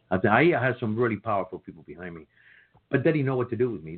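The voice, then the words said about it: Speaks with a strong accent. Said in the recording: “they even asked me to get rid of my accent ... I can't have an accent ... millions of Americans have accents ... they ro- enrolled me with the best uh, vocal uh, coach in, in LA ... I can't help you”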